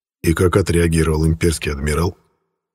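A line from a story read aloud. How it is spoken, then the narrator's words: Calm. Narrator (Russian): спокойно спросил президент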